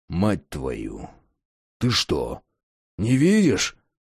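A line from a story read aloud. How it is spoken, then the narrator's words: Grumbling raven. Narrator (Russian): буркнул ворон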